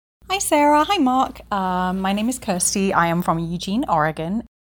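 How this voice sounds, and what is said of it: Woman with a non-Oregon, non-local accent. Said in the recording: “That's not what an Oregon accent sounds like. ... I don't think ... local. ... at least she's not originally from Oregon.”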